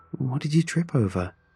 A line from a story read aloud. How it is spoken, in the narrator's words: Rachel asked, still chuckling